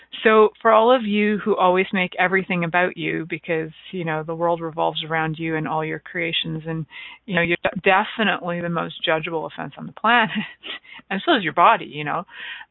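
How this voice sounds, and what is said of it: Sarcastic tone. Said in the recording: “sarcasm, please know that was sarcastic”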